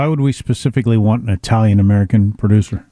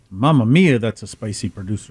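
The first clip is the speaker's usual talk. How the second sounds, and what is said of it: Put-on Italian accent. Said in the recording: “You can do an Italian voice.”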